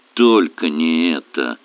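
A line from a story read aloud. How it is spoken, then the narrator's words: Groan. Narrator (Russian): простонал он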